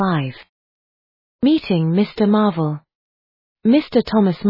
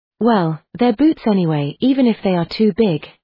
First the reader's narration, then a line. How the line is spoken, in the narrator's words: the voice said